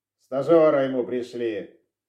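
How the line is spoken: Grumbling. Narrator (Russian): Продолжал ворчать эксперт

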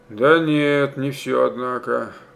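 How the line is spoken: Muttered. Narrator (Russian): пробормотал он

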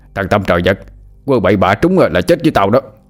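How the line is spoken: Shouted. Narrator (Vietnamese): Hai Đèn quát lên

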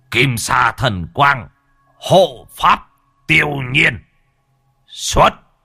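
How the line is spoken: Muttered chant, then shout. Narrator (Vietnamese): Lão lẩm bẩm đọc chú mà quát

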